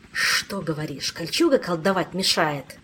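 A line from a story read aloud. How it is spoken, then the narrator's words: Angry hiss, spitting blood. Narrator (Russian): Зло прошипел Кантор, сплевывая кровь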